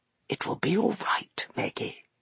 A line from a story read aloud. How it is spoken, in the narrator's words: he whispered